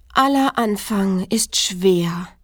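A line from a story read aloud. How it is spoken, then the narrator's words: Sighed. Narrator (German): seufzte es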